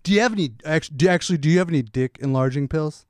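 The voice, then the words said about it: Imitates another person's voice. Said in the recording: “I'm doing a silly character right now... That was a pretty good impression... That was actually really good.”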